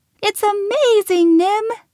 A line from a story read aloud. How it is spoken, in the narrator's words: Lil squealed